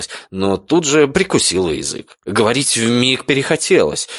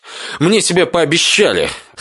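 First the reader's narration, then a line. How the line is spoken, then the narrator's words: Snort. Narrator (Russian): хмыкнул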